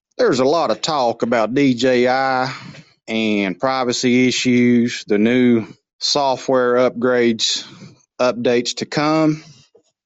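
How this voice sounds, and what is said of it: Southern US accent. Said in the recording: “As my accent is already southern, I thought I would enhance that southern slang”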